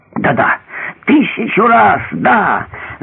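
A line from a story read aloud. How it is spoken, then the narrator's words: Fat man shouting. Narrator (Russian): закричал толстяк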